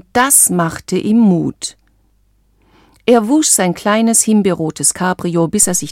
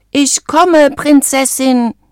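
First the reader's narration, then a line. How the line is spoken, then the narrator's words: Shouting as loud as possible. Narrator (German): rief er so laut er konnte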